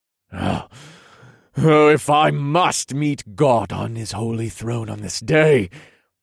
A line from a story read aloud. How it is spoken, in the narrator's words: snarled loudly